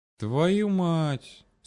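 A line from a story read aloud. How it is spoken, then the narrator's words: Melancholy exhale. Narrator (Russian): с какой-то непонятной тоскливой интонацией выдохнул Макс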